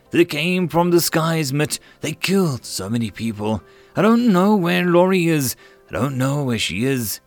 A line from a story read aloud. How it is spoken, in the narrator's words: cried